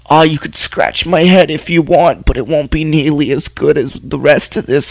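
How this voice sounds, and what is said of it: Dog voiced as old Jewish woman. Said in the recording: “I like your dog's voice that you. It's like an old him. Jewish woman.”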